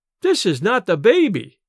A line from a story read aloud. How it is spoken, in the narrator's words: she exclaimed in startled tones